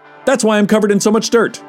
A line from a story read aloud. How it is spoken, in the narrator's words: he barked, still looking at the ground